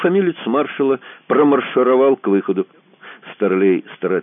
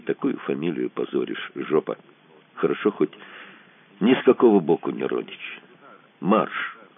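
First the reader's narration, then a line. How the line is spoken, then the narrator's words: Sad. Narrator (Russian): добавил печально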